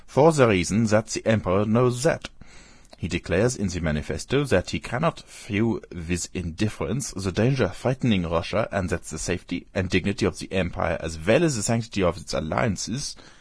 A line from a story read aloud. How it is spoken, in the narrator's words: said he, speaking with a German accent